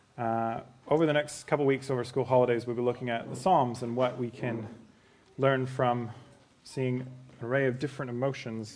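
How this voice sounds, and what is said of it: Canadian English accent. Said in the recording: “my quirky accent, I'm Canadian”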